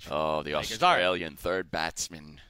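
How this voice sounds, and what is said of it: Loud put-on British accent. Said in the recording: “Why do you yell every time you use your British accent?”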